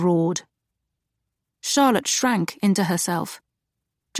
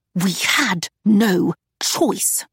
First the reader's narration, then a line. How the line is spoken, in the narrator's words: he hissed